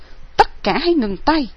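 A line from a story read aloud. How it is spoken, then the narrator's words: Shouting sharply. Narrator (Vietnamese): Nguyên Huân cất tiếng quát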